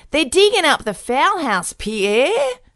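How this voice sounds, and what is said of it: Put-on Australian accent. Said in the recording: “the Australian accent.”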